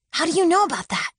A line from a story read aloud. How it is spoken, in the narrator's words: She hissed, hastily